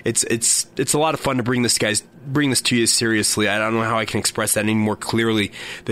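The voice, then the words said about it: Sore, hoarse voice. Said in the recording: “my voice is still not 100%... a sore slash hoarse voice”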